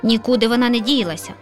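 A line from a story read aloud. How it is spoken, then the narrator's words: Lazy grumble. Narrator (Ukrainian): Ліниво буркнула сусідка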